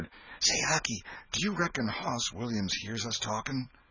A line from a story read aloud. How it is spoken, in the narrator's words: Tom whispered